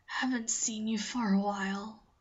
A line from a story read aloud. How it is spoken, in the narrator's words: whispers, voice dry and cracking